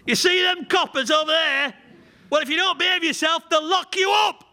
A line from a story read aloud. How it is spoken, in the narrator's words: Mothers shouting at the toddler